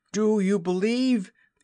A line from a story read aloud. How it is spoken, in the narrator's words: he cried